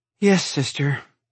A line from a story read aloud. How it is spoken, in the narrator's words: I sighed